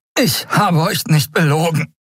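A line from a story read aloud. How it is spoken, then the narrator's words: Panting. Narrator (German): keuchte er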